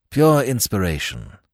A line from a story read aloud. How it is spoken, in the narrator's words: murmured Nayland Smith